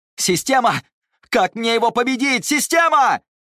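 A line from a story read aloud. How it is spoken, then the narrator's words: Shouted in thought. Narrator (Russian): выкрикнул он в мыслях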